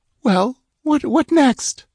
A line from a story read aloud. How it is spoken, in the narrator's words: asked in a shaky voice